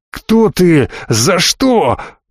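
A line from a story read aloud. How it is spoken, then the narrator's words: Howled. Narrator (Russian): взвыл Вильям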